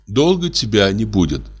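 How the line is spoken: Plain. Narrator (Russian): спросила Эрадна

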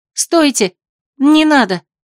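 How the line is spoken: Shocked exclamation. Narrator (Russian): я, невзирая на собственный шок, воскликнула

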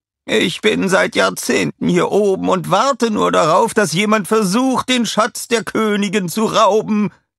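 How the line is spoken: Shouting. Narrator (German): schrie er

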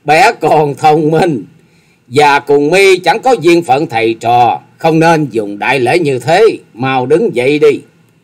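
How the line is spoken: Loud laughing. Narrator (Vietnamese): Thất Sát Thần Bà dục cười to lên

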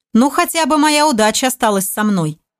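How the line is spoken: Commander, with a chuckle. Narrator (Russian): хохотнув, произнес командор

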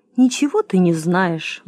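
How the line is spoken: Sighing cow. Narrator (Russian): вздохнула корова

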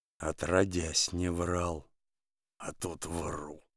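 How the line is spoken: Muttering. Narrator (Russian): бормочет Денис

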